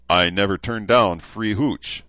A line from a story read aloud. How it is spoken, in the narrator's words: chuckled